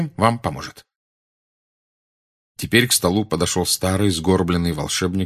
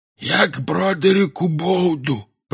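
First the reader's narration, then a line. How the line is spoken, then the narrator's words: Hoarse wheeze. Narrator (Russian): просипел он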